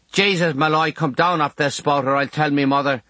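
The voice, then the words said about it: Broad Limerick Irish accent. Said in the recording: “His BBC accent is gone, and he's pure Limerick.”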